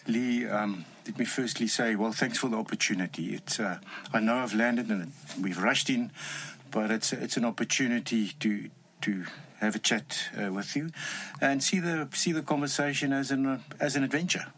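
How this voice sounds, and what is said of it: Strong Afrikaans South African accent. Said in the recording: “You have a strong Afrikaans accent. You clearly are South African.”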